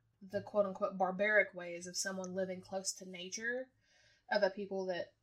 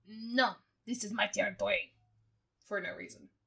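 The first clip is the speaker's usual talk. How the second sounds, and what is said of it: Poor put-on French accent. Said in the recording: “I really appreciate your French accent, too. ... it was atrocious.”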